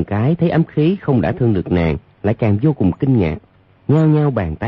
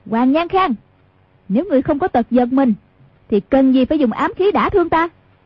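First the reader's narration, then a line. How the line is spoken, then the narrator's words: Angry shout. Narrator (Vietnamese): Hoàng Dung quát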